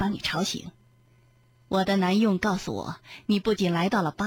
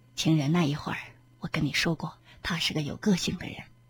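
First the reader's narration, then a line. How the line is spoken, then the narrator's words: Sighing whisper in ear. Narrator (Chinese): 兰登叹了一口气，在索菲的耳边低声说道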